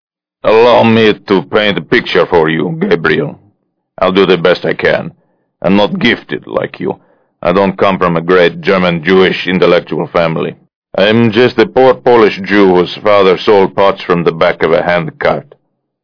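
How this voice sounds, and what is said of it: Thick Polish accent. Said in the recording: “Shamron's murderous Polish accent had grown thicker.”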